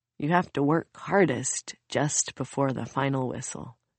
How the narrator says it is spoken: Soon smiles wearily

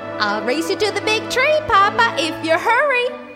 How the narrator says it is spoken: squealed Baby Bear

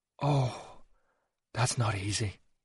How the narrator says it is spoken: he mumbled

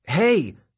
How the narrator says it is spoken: shout

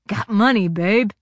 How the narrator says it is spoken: he sneered

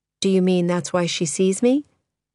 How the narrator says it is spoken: Thérèse asked calmly

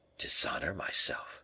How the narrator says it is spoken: murmured the king, turning pale with anger

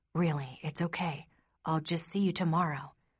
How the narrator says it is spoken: whispers

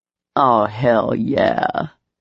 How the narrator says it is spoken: he said in a sexy growl

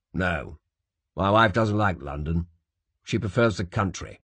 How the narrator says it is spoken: said George stiffly

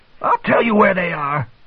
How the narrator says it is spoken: the man shrieked

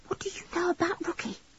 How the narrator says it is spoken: She whispered

